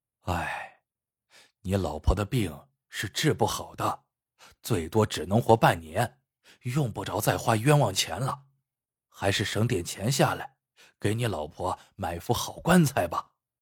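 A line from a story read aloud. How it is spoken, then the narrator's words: Sighing. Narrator (Chinese): 叹了一口气，说道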